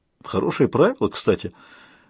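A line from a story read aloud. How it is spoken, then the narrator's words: Muttered. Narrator (Russian): пробормотал Людзе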